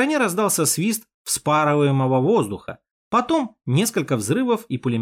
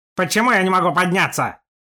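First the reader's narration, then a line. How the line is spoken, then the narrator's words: Angry. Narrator (Russian): Зло проговорил Степан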